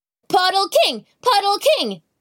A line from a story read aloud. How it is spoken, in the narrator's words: yelled